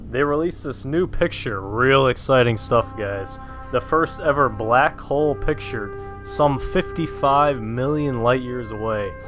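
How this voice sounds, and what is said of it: Southern American accent. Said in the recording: “are you Southern? ... Excuse the accent”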